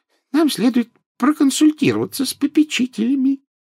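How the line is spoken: Squeaky. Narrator (Russian): пропищал профессор Флитвик

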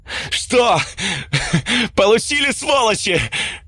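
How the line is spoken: Yelled. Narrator (Russian): Заорал я

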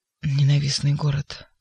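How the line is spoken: Sudden mutter. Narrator (Russian): вдруг почему-то пробормотал прокуратор

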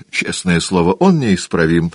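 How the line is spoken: Exclaimed. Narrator (Russian): воскликнул Дориан

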